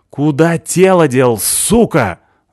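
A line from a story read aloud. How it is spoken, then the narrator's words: Yelling at someone. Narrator (Russian): заорал я на него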